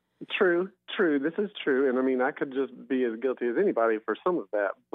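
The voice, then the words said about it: Strong Southern US accent. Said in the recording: “I don't think anyone has ever asked me to pump up my Southern accent. I don't think they would understand the words coming out of my mouth.”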